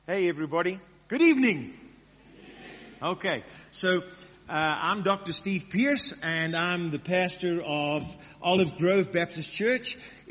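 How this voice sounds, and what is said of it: American accent. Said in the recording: “You can tell by my American accent.”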